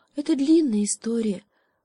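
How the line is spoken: Sighing monkey. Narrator (Russian): вздохнула обезьянка

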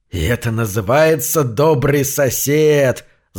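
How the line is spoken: Spiteful hiss. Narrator (Russian): злобно прошипел я

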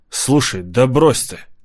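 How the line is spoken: Impulsive exclamation. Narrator (Russian): импульсивно воскликнул я

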